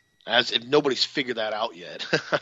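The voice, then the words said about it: Sarcastic tone. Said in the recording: “I'm being sarcastic,”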